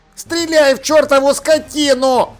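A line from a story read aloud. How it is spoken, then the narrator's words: Yelling. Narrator (Russian): завопил Шнопс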